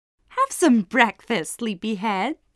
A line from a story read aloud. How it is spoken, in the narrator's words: said, laughing